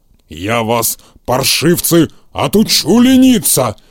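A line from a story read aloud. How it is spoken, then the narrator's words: Fierce growl. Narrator (Russian): свирепо зарычал он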